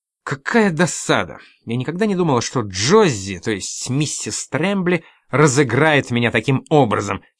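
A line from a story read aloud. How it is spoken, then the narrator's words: Angry exclamation. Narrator (Russian): сердито воскликнула Одри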